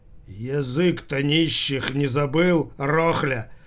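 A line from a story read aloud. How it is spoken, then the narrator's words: Menacing question. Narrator (Russian): грозно спросил кто-то, кто сидел в будке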